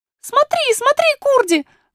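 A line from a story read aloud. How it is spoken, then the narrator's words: Princess shouting. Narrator (Russian): закричала принцесса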